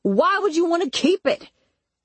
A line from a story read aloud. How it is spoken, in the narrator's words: He yelled